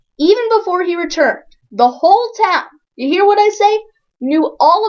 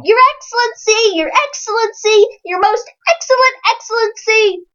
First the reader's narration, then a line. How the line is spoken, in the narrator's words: they trooped after him, shouting